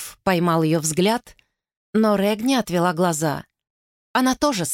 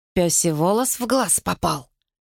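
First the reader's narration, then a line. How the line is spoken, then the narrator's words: Whisper. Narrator (Russian): шепнул он Вэллу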